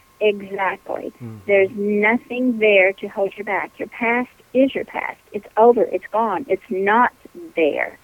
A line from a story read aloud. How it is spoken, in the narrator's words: she very calmly said